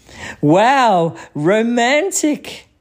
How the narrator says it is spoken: Clancy cried

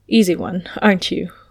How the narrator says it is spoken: Louis murmured

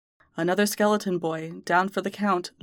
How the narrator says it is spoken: Louis sighs

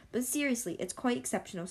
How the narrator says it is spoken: said Paulina

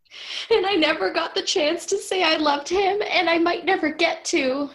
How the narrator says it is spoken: she wailed

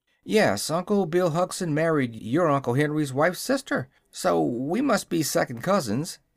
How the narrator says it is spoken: said the boy in an amused tone

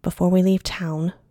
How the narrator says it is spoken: Wren said

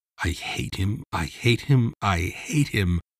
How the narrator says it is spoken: Mike muttered

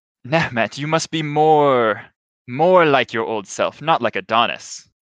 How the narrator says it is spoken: she will laugh and say

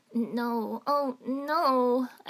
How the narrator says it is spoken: I whimpered

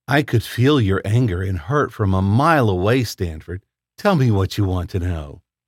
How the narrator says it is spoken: the woman asked

